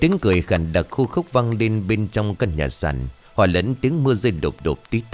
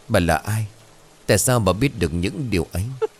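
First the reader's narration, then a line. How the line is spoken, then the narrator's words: Trembling stammer. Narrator (Vietnamese): Chắc như đinh đóng cột, Mọi Chừng run rẩy lắp bắp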